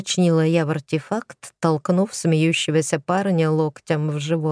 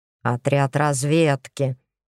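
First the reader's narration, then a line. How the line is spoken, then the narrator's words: Snorting retort. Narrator (Russian): фыркнул в ответ Игорь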